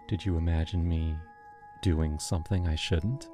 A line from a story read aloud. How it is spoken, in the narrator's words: She leaned in, whispered